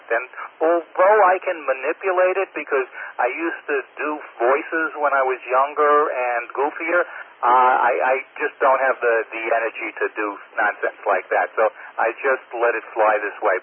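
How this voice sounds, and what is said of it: High, whiny Long Island accent. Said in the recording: “It's too high and it's too whiny ... It's basically to my ear a Jewish Long Island accent.”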